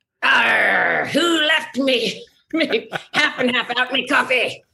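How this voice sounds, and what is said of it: Pirate voice. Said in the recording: “you don't get to speak in pirate that often”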